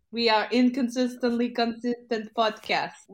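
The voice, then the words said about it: Put-on Russian accent. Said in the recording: “I'm going to drop the Russian accent”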